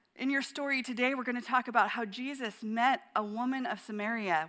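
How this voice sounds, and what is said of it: Slightly scratchy voice. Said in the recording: “my voice is a little itchy”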